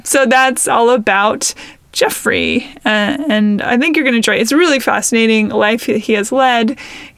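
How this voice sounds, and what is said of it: Croaky, frog-like hoarse voice. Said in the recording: “my voice sounds like a frog in this episode, and it's it's me with my allergies. So I apologize for any kind of bleating weird noises that I make.”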